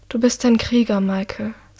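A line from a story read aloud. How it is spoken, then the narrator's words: Said softly. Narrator (German): sagt leise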